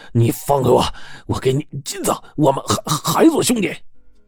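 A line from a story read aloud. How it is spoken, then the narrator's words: Panting, breathless. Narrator (Chinese): 柴老板喘着粗气说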